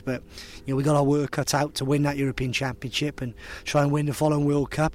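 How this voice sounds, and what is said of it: Welsh accent. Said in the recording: “you're Welsh ... I think it's still quite Welsh.”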